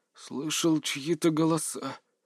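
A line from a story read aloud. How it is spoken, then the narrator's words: Moan. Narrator (Russian): простонал он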